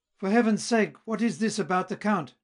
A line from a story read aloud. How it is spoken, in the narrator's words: cried Wilhelm